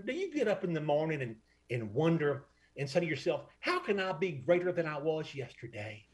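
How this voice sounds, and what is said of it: Convincing North Alabama accent. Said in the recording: “That's a pretty good North Alabama accent ... I was not expecting him to nail that North Alabama accent, but that's good. That's spot on right there.”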